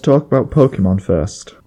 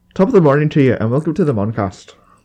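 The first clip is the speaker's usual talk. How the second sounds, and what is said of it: Bad put-on Irish accent. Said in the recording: “we have awful Irish accents.”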